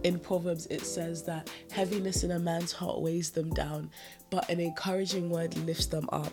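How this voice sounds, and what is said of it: Stuffy, congested voice. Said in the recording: “as you might already be hearing, my voice is a little bit stuffy”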